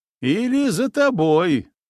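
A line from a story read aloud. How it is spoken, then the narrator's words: Loud smiling declamation. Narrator (Russian): улыбнулся я, громко продекларировав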